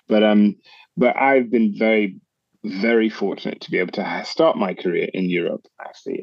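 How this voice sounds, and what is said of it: English accent. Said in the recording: “I'm hearing the English accent there ... don't let the accent fool you”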